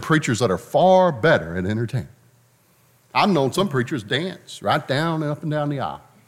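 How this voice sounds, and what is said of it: Southern American accent. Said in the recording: “I love the Southern accent I have.”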